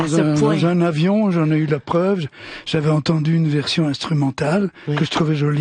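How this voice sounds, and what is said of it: Usual voice. Nothing is said of it.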